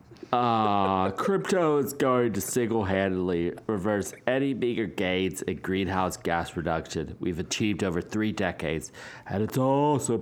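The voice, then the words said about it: Imitates another person's voice. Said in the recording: “You want me to do a Rowdy impression? ... Do you want me to do an impression of Axe Krieger done by Rowdy?”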